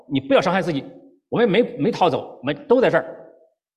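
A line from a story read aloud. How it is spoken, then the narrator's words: Loud. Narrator (Chinese): 保罗在大声地说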